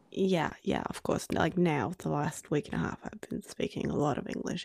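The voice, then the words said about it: Australian-accented English with Norwegian traces. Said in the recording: “you speak perfect Australian ... even I can hear my Norwegian in my Australian accent”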